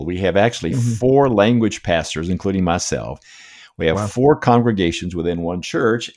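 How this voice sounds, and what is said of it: American accent. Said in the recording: “I'm a transplant from the States. Probably America. My accent gives me away”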